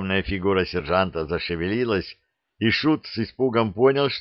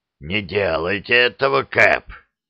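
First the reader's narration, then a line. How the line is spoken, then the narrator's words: Hoarse. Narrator (Russian): прохрипел Гарри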